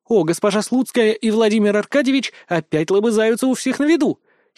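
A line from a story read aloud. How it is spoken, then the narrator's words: Predatory gleeful exclamation. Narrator (Russian): Хищно облизнувшись, воскликнула Рита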